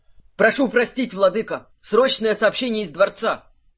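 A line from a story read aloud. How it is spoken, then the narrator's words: Messenger's shout from doorway. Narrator (Russian): выкрикнул гонец с порога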